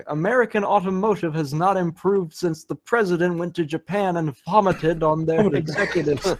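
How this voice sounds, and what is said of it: Cartoon character impression, Texan dialect. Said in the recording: “nails, like immediately sells like Hank Hill's dialect ... doing a Hank Hill impression”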